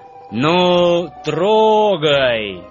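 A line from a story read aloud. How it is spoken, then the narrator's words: Loud command. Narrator (Russian): громко скомандовал главный вожак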